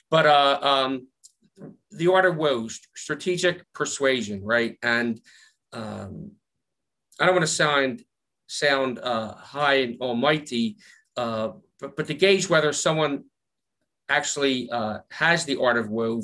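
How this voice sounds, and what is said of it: Philadelphia accent. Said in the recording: “my Philly accent”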